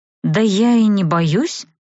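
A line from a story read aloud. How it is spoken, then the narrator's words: Strained, forced out. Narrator (Russian): выдавила я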